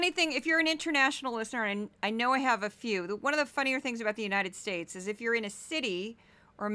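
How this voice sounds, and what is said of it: Usual voice. Nothing is said of it.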